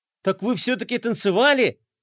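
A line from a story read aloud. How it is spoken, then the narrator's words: Joyful gasp. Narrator (Russian): радостно ахнул Флай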